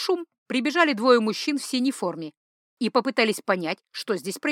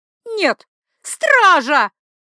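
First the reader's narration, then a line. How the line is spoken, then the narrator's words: Terrified shrieking. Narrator (Russian): Она визжала так, словно поверила в то, что я собираюсь ее убить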